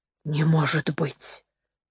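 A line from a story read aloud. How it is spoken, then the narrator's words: Quiet. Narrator (Russian): тихо сказала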